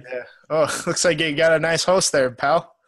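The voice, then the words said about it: Put-on Canadian accent. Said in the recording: “Sorry for our accents.”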